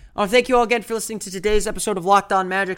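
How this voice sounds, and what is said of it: Voice slightly off, sick. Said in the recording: “Sorry if my voice is a little bit off today. I am a little bit under the weather”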